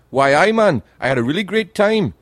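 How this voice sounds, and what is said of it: Attempted Geordie Newcastle accent. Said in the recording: “I can't do the accent. They've got the best accent ever, the people from Newcastle. "Geordie ... They speak like that. They're just on the border of Scotland. I can't do the accent.”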